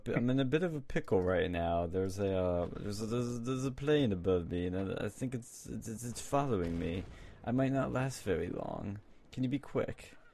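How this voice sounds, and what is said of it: Put-on foreign accent, rough imitation. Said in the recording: “I said I was Kasim Soleimani ... I did better accent than I am right now, but it was something like that.”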